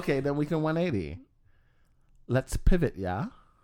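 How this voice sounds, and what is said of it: Put-on British accent. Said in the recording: “Was that your British accent?”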